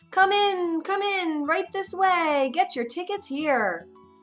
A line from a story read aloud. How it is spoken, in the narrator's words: called out